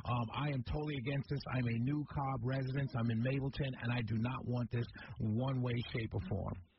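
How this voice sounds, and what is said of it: Slight New York accent. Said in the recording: “do I detect a small New York accent? ... Absolutely. I'm a New Yorker through and through”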